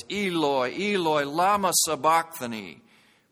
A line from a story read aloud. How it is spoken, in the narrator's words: Jesus cried out in a loud voice